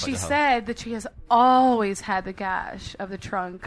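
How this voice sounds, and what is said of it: Sexy, sultry reading voice. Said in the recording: “said in a sexy voice ... Sexier ... Didn't it sound dirty?”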